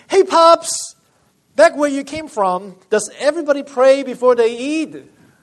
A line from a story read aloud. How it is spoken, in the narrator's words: Some teenagers … shouted